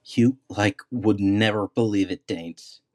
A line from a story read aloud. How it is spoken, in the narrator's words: giggled Whisper